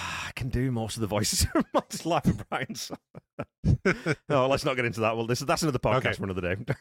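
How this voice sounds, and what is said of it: Usual voice. Nothing is said of it.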